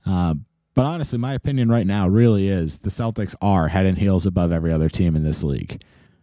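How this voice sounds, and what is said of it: Rough, worn-out sounding voice. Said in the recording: “I apologize if my voice sounds horrible ... I am running on 2 hours of sleep. The voice sounds horrible. I had a horrible cough all day long.”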